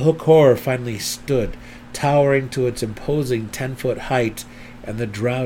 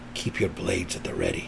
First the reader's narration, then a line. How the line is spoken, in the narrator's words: Belwar prudently whispered to Driz